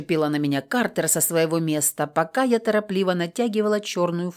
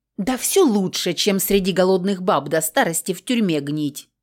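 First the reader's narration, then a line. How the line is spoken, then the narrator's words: Snapping retort. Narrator (Russian): Огрызнулась озабоченная дрянь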